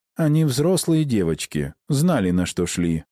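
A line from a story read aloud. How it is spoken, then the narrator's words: Plain. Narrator (Russian): ответил Август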